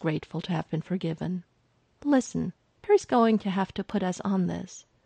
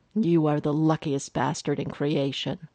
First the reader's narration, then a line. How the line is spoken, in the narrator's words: Lex growled in his ear